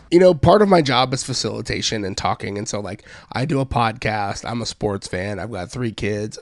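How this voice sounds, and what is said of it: Weird, worn-out voice. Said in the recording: “You feeling all right? ... my weird voice”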